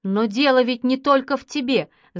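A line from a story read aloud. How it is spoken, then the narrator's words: Father shouting. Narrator (Russian): закричал отец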